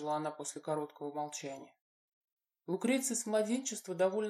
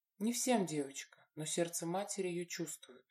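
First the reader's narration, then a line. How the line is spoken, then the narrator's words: Smiling. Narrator (Russian): улыбнулась ей Корнелия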